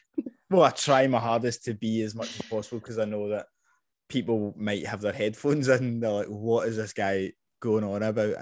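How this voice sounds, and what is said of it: Softened Scottish accent. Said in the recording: “when I first met you, I feel like you were more Scottish ... I probably have softened my accent a lot”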